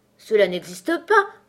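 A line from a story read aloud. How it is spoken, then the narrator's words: Angry exclamation. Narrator (French): s'écria Alice avec colère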